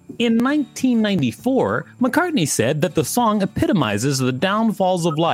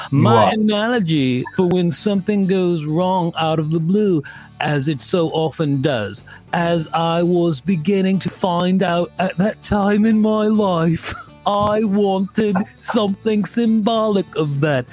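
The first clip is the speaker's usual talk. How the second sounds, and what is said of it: Badly done put-on accent. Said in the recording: “I'm doing a terrible accent.”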